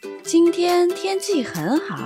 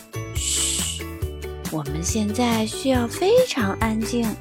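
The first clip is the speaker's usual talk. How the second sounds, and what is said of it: Quiet whispering voice. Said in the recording (Chinese): “小声”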